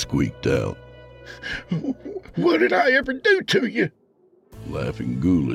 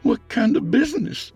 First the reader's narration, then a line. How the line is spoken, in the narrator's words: Micah asked timidly